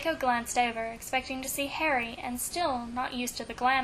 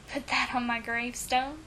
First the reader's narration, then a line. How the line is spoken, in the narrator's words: Draco chuckled